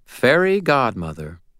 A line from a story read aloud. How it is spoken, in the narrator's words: Leah … said calmly